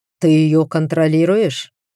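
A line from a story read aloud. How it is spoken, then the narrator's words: Snide, needling scoff. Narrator (Russian): неприятно хмыкнул Тритон, явно стараясь зацепить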